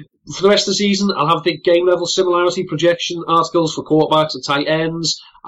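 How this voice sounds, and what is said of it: Scouse accent. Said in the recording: “my dulcet scouse tones ... two lads with a similar accent. It can be grating on the ears.”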